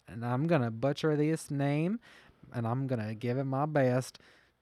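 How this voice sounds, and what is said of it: Put-on Southern US accent. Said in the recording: “that southern accent.”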